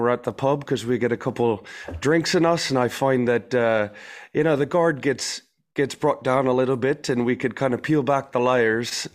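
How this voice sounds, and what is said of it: Attempted Irish accent, not quite convincing. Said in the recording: “Where's that accent from? Is that South Africa or is that Australia? Somewhere in Ireland... the Jersey boy trying to be an Irishman... You're almost there, man.”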